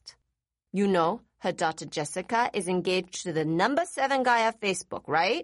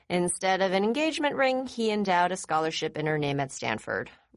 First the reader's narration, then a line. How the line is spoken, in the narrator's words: Rachel said in a bored tone